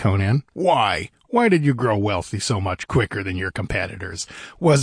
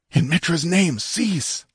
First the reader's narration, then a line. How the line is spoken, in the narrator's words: begged Publio